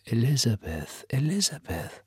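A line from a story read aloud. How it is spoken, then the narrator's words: Whisper. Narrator (German): flüsterte er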